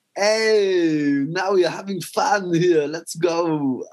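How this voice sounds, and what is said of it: Mock flashy footballer voice. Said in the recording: “that was my impression of a random glamorous footballer.”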